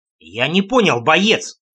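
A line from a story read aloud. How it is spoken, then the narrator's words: Near bark. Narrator (Russian): Чуть не рявкнул я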